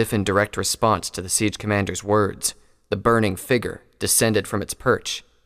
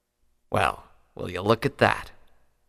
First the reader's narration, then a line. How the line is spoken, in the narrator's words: the siege commander muttered